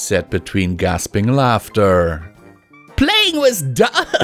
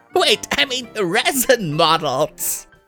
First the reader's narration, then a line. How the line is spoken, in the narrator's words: She laughed even harder